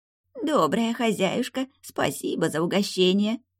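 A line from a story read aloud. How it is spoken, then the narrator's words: Embarrassed creak. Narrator (Russian): Смущенно проскрипел зерна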